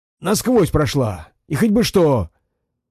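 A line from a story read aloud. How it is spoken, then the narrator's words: Triumphant exclamation. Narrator (Russian): Торжествуя, воскликнул он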